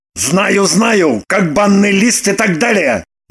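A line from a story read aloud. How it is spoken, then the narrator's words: Interrupting. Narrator (Russian): Прервал ее Роман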